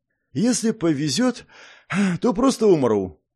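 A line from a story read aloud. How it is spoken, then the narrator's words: Heavy-sighing reply. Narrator (Russian): тяжело вздохнув, ответил Ким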